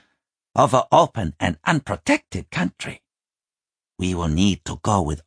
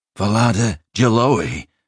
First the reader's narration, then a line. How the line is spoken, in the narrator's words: Strangyard said breathlessly